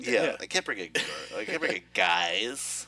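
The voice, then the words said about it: Imitates another person's voice. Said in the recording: “It's a pretty good impression.”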